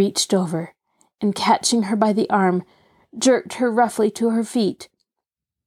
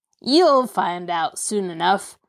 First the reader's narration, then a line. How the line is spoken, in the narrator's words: Stumpy sneered